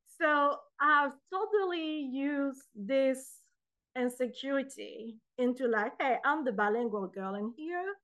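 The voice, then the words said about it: Speaks English with a foreign accent. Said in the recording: “I know I got an accent”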